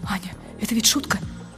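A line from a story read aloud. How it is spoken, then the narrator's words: Whispering. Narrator (Russian): И он говорит шепотом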